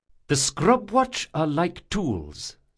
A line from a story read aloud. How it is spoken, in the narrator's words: said Dracasha